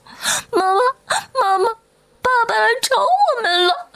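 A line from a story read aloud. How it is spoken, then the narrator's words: Crying children. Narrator (Chinese): 两个孩子 哭着扑过来说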